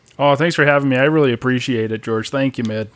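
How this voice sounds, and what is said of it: Philadelphia Delco accent. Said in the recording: “picked up the accent quickly ... I feel like it is hitting a little bit of the Delco area. I'm definitely hearing some of the notes.”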